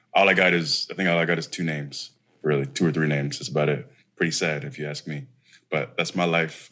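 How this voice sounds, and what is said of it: Defeated, deflated tone. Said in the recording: “You sound so defeated.”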